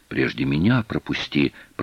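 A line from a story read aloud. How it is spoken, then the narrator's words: Silent mouthed whisper. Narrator (Russian): прошептала Аленка одними губами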